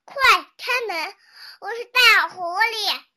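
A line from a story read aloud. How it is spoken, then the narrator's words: Loud. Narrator (Chinese): 灰灵文的文大声说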